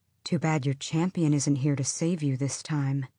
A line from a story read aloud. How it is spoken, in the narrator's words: the scarred one said quietly